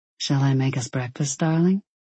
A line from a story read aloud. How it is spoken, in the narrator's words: He asked quietly